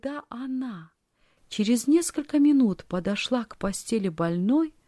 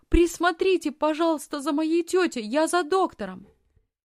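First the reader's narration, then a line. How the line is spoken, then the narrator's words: Hurried shout. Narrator (Russian): По пути она крикнула фрау Зайлер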